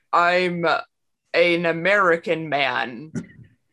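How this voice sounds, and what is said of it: Stilted fake American accent. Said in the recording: “his American British accent ... weird ass, like, fucking super stilted American accent”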